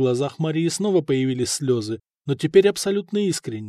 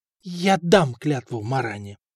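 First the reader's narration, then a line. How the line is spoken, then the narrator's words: Strained, forced out. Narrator (Russian): выдавила из себя Мария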